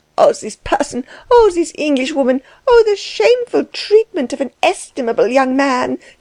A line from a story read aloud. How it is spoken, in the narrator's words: cried Frau Dellwig